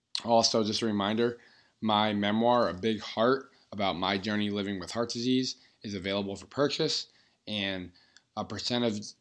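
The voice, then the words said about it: Strained, slightly off voice. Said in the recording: “apologize for my voice... talking very loudly, occasionally yelling. So my voice is definitely a little bit off”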